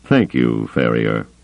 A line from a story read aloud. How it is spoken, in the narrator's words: Thrawn said dryly